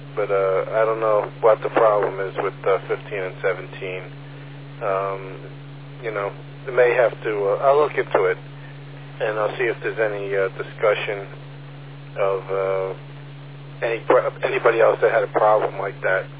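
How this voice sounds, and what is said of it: Hoarse, strained voice. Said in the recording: “Excuse me, I'm losing my voice.”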